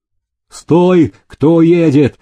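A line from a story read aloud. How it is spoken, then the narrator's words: Guards calling out. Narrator (Russian): окрикнули караульные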